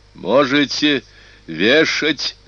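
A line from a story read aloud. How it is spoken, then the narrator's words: Shouting after gathering courage. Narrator (Russian): закричал Вигилий, собравшись с духом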